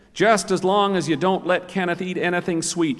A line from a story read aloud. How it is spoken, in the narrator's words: she said